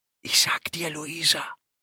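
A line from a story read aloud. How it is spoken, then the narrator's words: Whispered. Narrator (German): flüstern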